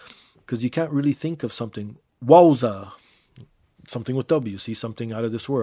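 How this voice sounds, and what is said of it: Usual voice. Nothing is said of it.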